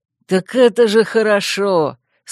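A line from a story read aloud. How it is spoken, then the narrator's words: Laughing with pleasure. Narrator (Russian): С удовольствием расхохотался второй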